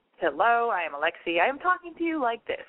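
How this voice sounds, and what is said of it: Put-on radio announcer voice. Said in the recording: “This is my radio voice. ... it's really annoying.”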